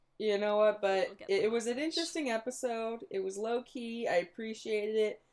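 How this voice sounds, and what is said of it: Rough, slightly hoarse voice. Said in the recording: “I might have screamed my voice out on Friday singing along ... So my throat's been kind of rough this whole episode.”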